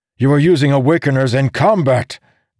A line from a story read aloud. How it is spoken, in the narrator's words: Dalinar yelled